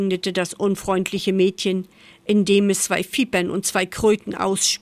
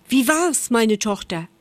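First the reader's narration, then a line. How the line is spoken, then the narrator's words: Mother calling out. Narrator (German): rief sie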